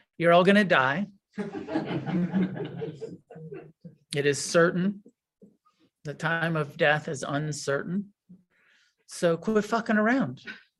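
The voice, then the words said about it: Imitates another person's voice. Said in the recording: “Yeah, pretty good, right? That was my best impression.”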